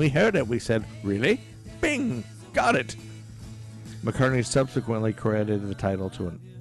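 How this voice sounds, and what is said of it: Usual voice. Nothing is said of it.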